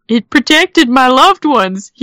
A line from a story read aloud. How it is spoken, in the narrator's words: he gasped to Aunt Lou